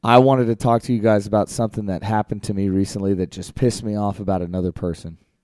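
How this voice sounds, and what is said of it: Voice still a little messed up. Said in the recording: “as you can probably still tell, my voice is a little messed up still”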